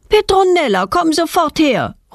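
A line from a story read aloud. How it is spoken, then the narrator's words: Mother calling from window. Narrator (German): ruft ihre Mutter aus dem Wohnzimmerfenster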